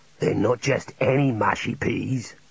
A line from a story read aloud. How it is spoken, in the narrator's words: said Fairgo, slightly disconcerted